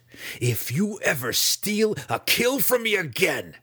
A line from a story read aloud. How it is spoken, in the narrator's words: he spat, sincerity dripping from the false words